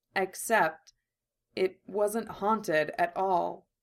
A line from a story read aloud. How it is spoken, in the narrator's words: Armin says slowly, carefully